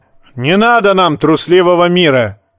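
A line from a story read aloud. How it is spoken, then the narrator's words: Roar. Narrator (Russian): взревел Ральф Хромой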